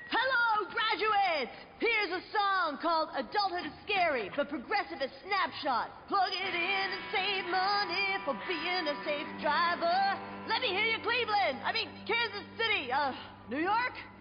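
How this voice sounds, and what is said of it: Rock band frontman impression. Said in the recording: “my impression of a geographically challenged rock band delivering a commencement speech”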